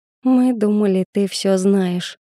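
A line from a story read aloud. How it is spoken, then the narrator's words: Sighing. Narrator (Russian): вздохнула Анжела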